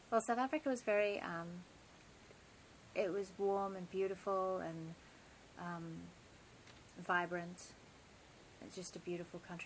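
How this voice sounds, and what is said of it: South African and British accent. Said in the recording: “you grew up in South Africa and the UK? ... So that's where you get your delicious accent from? ... I love, you know, ... accent.”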